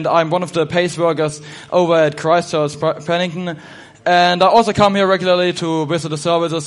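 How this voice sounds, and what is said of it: German accent. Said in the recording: “as I'm from Germany, my accent may sound a little bit odd to you”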